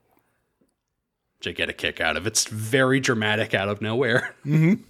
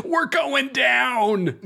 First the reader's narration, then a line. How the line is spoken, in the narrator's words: Everyone cheers, Sokka yells